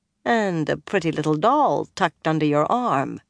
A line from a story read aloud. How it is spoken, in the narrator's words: Bear said dryly